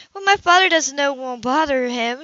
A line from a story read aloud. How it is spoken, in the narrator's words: she said uneasily